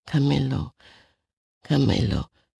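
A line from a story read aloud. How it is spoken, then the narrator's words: Tearful whisper. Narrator (German): flüsterte unter Tränen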